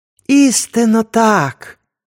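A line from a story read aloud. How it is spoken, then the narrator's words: Joyful shout. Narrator (Ukrainian): радісно гукнув Мола-Несарт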